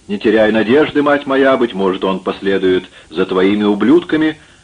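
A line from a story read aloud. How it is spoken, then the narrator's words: Shouting blacksmith. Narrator (Russian): коренастый кузнец в синем тюрбане крикнул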